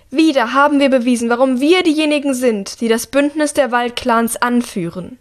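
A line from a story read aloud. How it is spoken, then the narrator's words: Ruler calling out. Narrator (German): ruft die Regentin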